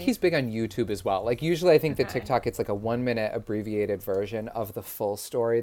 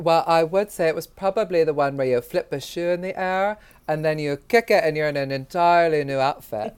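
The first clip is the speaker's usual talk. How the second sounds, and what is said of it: Imitates a fictional character's voice. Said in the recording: “your Moira Rose impression”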